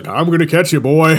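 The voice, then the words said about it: Put-on Southern accent. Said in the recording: “he's calling you boy. With a southern accent.”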